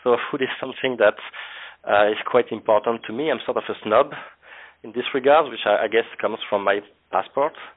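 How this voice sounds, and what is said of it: French accent. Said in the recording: “as my accent may have told already, I'm coming from France”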